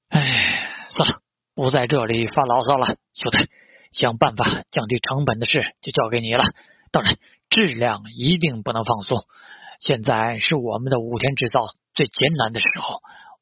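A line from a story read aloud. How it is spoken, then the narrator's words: Sighing. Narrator (Chinese): 武田孝之叹道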